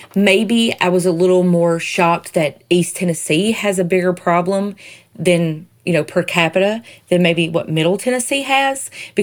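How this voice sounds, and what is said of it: Southern American accent. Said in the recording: “my Southern accent, sorry.”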